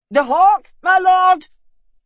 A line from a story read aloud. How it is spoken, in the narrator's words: shouted the falconer